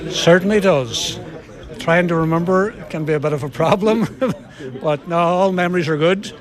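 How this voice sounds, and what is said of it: Irish Donegal accent. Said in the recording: “your Donegal accent hasn't changed... You were Donegal born and bred.”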